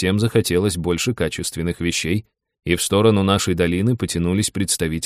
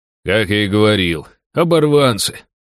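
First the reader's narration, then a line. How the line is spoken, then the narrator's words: Scornful snort. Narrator (Russian): хмыкнул Дрой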